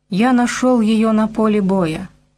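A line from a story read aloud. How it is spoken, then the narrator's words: Plain. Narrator (Russian): сказал он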